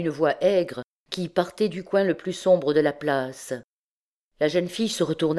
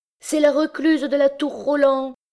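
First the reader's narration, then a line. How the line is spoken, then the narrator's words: Group crying out, laughing wildly. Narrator (French): s'écrièrent-ils avec des rires désordonnés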